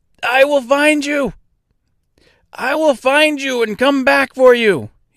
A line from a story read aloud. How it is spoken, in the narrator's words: he cried out